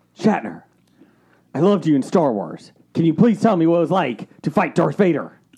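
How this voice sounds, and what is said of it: Imitates another person's voice. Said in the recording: “doing a William Shatner impression?”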